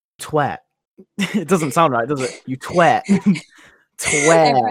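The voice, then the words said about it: Put-on American accent. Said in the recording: “I'm going to do my best American accent.”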